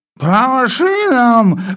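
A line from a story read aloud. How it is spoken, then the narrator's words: Sudden roar in sleep. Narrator (Russian): взревел вдруг полковник, не просыпаясь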